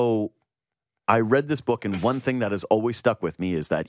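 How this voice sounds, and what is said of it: Usual voice. Nothing is said of it.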